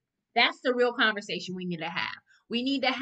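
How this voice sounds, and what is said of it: Usual voice. Nothing is said of it.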